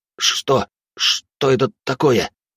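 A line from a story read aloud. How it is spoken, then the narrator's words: Strained, forced out. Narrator (Russian): выдавил Явор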